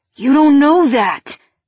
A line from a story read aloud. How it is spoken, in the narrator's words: Gage shouted